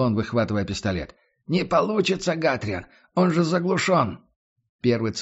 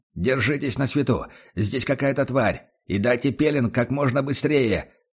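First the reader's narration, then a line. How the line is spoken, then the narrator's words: Shouting. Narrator (Russian): выкрикнул Лекс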